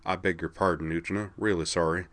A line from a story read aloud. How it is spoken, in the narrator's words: muttered